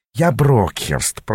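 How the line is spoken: Grumbling with a smile. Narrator (Russian): проворчал бес, но сделал это, улыбаясь

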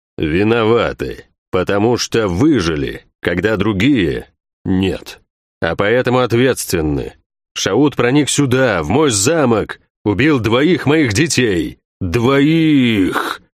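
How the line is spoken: Growl. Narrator (Russian): Он прорычал это слово

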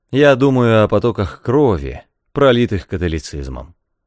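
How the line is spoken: Cold reply. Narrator (Russian): холодно ответил Эмиль

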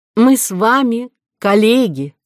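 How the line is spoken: Plain. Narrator (Russian): сказал Горбуй

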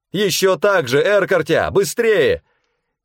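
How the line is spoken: Shout. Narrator (Russian): крикнула мне Черэр Бархан

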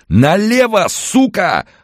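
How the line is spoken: Frantic yelling. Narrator (Russian): орал ему обезумевший парень

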